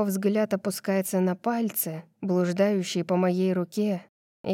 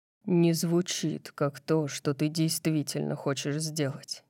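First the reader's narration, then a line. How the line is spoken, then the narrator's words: Muttering. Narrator (Russian): бормочет он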